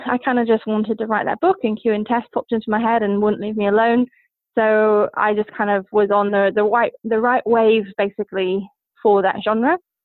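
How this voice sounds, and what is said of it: New Zealand-sounding accent. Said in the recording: “from your accent, we were talking a little bit earlier, I thought you were from New Zealand.”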